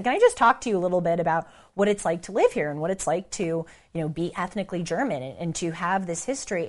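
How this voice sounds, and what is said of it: American Valley girl accent. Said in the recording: “You can probably tell by my Valley girl, American, dumb sounding accent.”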